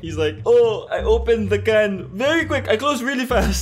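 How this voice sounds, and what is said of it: Attempted Spanish accent, non-specific. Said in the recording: “What accent was that? ... It was supposed to be my Spanish accent. ... your non-specific racist accent.”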